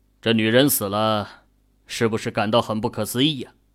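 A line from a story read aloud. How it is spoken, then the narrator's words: Deep, grave voice. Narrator (Chinese): 秦宇沉声道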